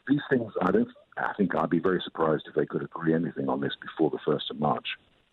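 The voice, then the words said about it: Refined-sounding accent. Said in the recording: “really love your accent ... More accent ... he sounds so refined”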